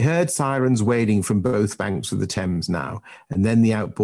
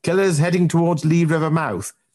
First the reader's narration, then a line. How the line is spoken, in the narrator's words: Jack barked into the radio